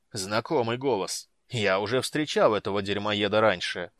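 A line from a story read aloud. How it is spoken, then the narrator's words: Growling. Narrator (Russian): прорычал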